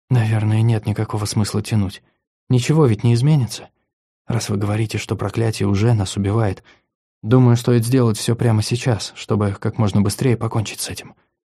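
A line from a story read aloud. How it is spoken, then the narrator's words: Whisper. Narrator (Russian): Виктория прошептала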